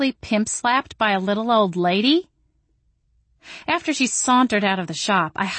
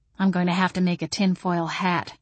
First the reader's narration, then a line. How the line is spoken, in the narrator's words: I muttered